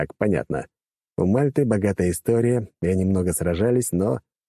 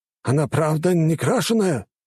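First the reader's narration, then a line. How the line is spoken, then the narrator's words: Exclaiming. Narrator (Russian): воскликнул один из торговцев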